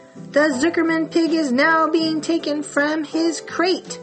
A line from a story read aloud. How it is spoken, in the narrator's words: boomed the voice on the loudspeaker